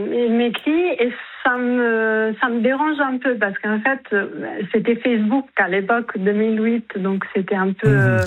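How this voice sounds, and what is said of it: Italian accent in French. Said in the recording (French): “je m'excuse par avance par mon accent ... Qu'est-ce que c'est comme accent? ... Italien.”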